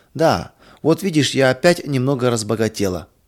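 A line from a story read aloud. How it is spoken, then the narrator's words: Laughing. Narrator (Russian): засмеялась Мария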